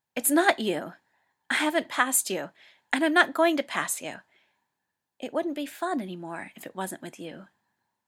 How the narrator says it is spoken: Hikaru blurts out

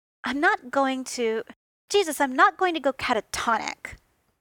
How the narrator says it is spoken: Tony snapped back

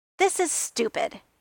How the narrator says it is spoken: he snapped out, knowing that he was being childish and still not being able to stop

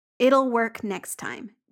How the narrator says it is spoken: Jamie says firmly

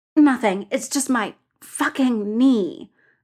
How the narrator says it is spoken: Bull says through gritted teeth

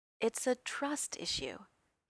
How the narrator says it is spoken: he said, his voice unexpectedly kind

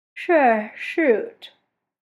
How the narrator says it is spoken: John says, yawning

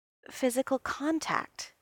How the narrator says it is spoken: he said, his voice very soft

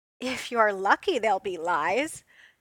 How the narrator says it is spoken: she called back, and there was laughter in her voice

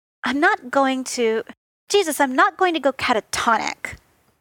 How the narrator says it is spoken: Tony snapped back

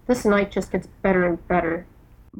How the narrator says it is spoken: Bones mutters

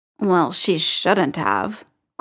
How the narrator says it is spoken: Clint muttered

